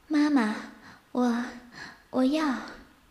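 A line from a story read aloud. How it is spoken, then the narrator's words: Eager urgent voice. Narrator (Chinese): 我 色急急的道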